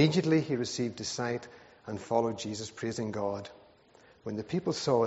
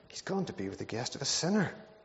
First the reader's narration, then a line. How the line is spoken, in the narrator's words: All the people began to mutter